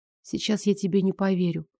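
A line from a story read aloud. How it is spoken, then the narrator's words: Quiet speech. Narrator (Russian): тихо сказала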